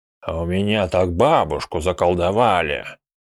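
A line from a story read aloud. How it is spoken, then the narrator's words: Grumbling old man. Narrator (Russian): ворчал старик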